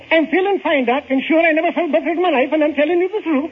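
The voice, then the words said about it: Suddenly speaking in a different dialect. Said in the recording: “I changed his dialect!”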